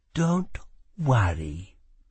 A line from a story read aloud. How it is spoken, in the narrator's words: she whispered